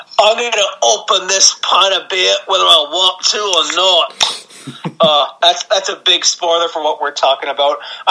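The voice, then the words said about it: Poor put-on British accent. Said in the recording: “I'm sorry for butchering that British accent.”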